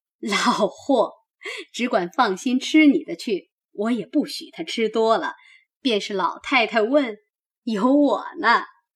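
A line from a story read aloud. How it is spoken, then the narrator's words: Laughing. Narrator (Chinese): 薛姨妈笑道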